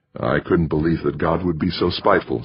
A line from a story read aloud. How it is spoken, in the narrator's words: said Jamie